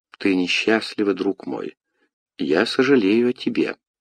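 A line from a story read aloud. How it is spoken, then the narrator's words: Tender speech. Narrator (Russian): Екатерина сказала ласково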